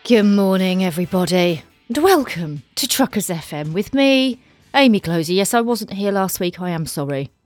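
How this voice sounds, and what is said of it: Slightly sore, strained throat. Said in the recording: “I have a little bit of a sore throat today ... It's just a tiny one, and you might be able to hear it in my voice”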